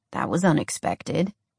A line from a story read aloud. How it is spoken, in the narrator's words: Jordan muttered